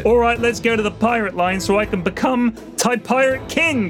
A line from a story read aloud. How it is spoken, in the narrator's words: Bodega yelled